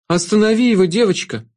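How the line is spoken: Pleading shadow. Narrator (Russian): взмолилась тень

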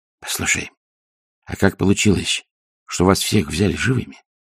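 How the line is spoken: Whispered question. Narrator (Russian): шепотом спросил Ринсвинд

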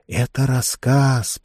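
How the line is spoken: Girl's whisper. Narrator (Russian): прошептала зеркальная девочка

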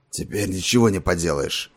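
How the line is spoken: Hoarse voice. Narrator (Russian): сказал стрелок своим хриплым голосом

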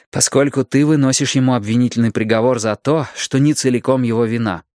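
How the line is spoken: Plain. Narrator (Russian): ответил Мэтью

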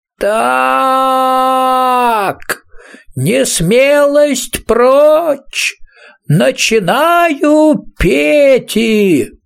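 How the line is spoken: Moaning. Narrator (Russian): простонал Пикси

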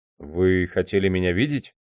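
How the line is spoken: Uncertain question. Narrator (Russian): неуверенно спросил он

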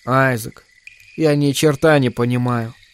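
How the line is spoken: Sad. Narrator (Russian): печально покачала она головой

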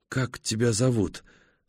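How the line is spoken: Weak voice. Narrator (Russian): слабым голосом спрашивает она

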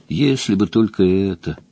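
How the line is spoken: Sighing. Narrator (Russian): вздохнула глупость

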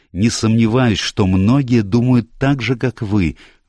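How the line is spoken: Heated exclamation. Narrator (Russian): воскликнул я горячо

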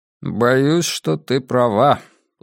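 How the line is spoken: Gloomy agreement. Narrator (Russian): уныло согласился я

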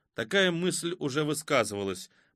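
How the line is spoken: Gloomy. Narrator (Russian): мрачно сказал Томах

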